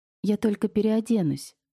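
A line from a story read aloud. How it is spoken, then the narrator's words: Timid. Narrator (Russian): робко сказала Ксения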